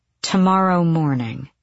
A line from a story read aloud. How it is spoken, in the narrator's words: she said coldly